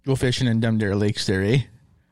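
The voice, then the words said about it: Exaggerated Minnesotan accent. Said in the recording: “do you think we have a Minnesotan accent? ... That's what everyone thinks we sound like.”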